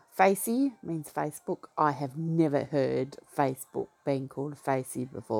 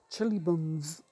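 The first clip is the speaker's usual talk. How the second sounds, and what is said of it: Put-on New Zealand accent. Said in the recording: “That's my best New Zealand accent.”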